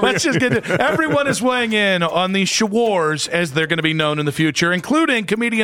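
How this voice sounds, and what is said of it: Usual voice. Nothing is said of it.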